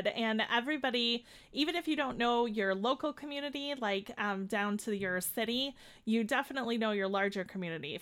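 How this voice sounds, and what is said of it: Chicago accent. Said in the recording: “we're here in Chicago, as my accent always tells everyone”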